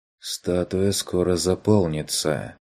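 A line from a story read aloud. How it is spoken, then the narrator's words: Quiet, thoughtful. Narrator (Russian): задумчиво глядя на пустой пыточный стол, негромко произнесла она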